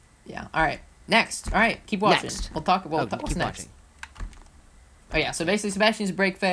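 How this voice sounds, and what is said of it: Usual voice. Nothing is said of it.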